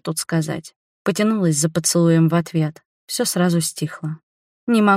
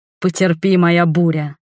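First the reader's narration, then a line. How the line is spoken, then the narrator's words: Growling. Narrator (Russian): рычал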